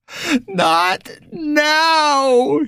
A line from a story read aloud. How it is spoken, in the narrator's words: he screamed